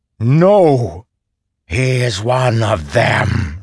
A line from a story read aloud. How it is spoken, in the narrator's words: growled